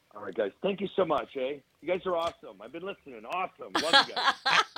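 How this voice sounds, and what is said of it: Canadian accent. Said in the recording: “I love the Canadian accent.”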